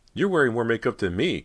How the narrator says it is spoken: Cody blurted out

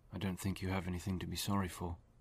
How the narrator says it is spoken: David said softly

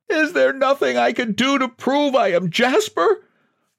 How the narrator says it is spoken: He wailed

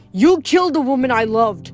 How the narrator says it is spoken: Hades roared

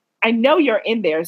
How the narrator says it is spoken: said Hermione

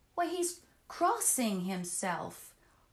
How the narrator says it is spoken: cried

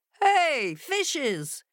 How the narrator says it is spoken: cried the fox

